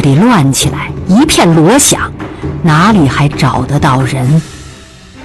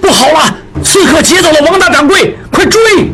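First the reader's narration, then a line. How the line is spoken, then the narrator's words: Shouting. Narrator (Chinese): 何大掌柜大喊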